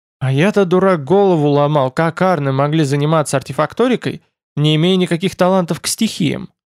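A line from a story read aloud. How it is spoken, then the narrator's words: Sighing. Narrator (Russian): вздохнул Тмор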